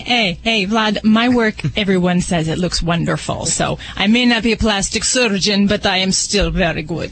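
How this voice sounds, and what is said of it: Put-on Russian accent, sounds New Jersey. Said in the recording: “accent is almost like our groomer from New Jersey ... I think she was going for the Russian accent”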